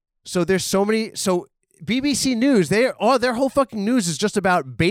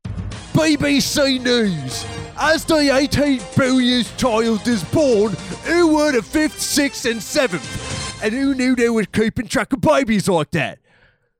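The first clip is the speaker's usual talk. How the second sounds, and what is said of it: Aggressive put-on British accent. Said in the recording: “I'm a very aggressive sounding British man”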